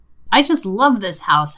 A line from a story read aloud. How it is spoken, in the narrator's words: Hannah exclaims